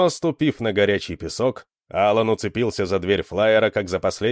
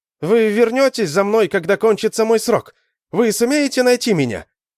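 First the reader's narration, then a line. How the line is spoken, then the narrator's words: Shouting. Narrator (Russian): кричал он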